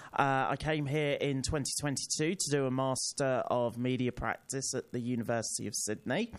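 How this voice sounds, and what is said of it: British accent. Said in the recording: “as you can tell by my accent, I'm not from Australia, I'm from the UK”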